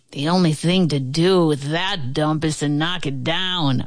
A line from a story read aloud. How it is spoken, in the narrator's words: a man sneered